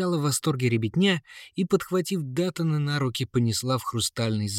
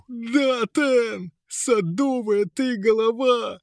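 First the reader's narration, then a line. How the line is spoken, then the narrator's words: Frantic, unrecognisable yell. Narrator (Russian): заорал не своим голосом мешок хитростей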